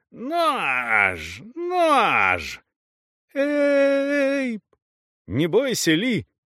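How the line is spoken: Shout. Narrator (Russian): крикнул Эйп

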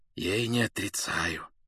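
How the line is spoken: Near whisper. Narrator (Russian): почти шепотом сказал он

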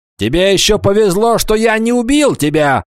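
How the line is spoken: Furious shouting. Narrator (Russian): в ярости кричал ему вслед барон

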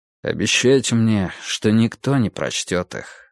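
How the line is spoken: Plain. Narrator (Russian): сказал он

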